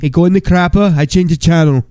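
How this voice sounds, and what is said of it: Imitates another person's voice. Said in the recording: “That's a weird Hey Arnold impersonation... Arnold Schwarzenegger”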